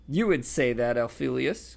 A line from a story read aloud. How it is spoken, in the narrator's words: cackled Aunt Muriel